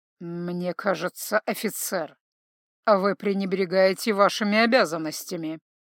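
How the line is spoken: Through gritted teeth. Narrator (Russian): процедил Торинель

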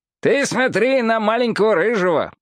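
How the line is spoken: Shouted into ear. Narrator (Russian): прокричал Уот в ухо Робу

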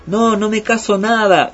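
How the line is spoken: Exasperated shout from afar. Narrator (Spanish): Al final, no pudo más y de lejos le gritó

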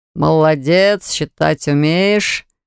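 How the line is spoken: Praising, male voice. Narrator (Russian): похвалил меня усатый мужчина

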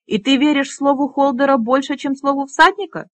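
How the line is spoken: Indignant exclamation. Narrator (Russian): с негодованием воскликнул трон

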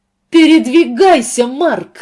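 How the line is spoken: Yelling. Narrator (Russian): заорала она

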